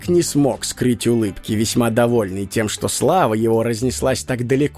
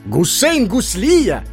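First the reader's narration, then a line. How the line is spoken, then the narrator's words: Exclamation. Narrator (Russian): воскликнул Хаджа Насреддин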